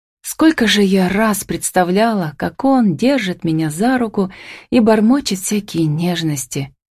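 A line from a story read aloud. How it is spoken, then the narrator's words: Short sigh. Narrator (Russian): Коротко вздохнула она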